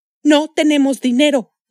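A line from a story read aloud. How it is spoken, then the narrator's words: Woman shouting. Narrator (Spanish): gritó la mujer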